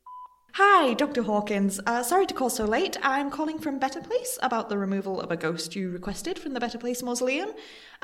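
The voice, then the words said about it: Polite put-on phone voice. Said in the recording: “phone voice”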